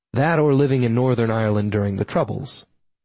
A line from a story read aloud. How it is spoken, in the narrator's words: I said